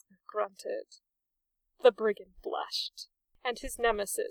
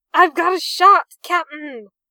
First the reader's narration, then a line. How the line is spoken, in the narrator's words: the sullen-faced recruit cried